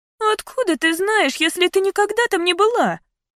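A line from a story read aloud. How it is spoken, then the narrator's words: Thin little voice. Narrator (Russian): спросила Карли тонким голоском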